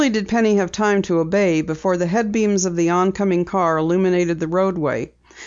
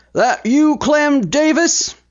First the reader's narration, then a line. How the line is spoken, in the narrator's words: boomed a loud voice